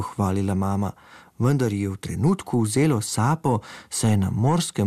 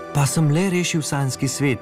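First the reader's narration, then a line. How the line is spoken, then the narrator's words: Proud smiling call. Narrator (Slovenian): je s ponosnim nasmehom zaklical Simon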